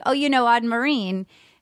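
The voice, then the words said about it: Put-on Rhode Island accent. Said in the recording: “That's my Rhode Island accent.”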